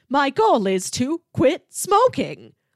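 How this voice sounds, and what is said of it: Flat robotic calculator-like voice. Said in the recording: “robot voice ... sounds like Siri ... it still sounds like the voice of a calculator ... it's not a woman's voice”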